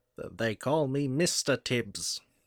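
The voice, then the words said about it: Imitates another person's voice. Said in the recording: “That was your impression of it”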